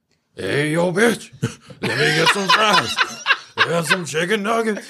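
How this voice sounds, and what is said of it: Gruff barking imitation of another person's voice. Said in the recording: “Clifford's voice will be done by DMX ... That's pretty good. That's pretty good impersonation ... I can't do that bark, man. Like, he's, like, thrusting so much air”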